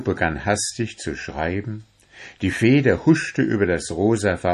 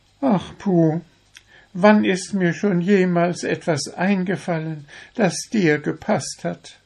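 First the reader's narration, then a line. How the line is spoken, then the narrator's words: Deep resigned sigh. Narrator (German): seufzte Zwitschi tief und fügte resigniert hinzu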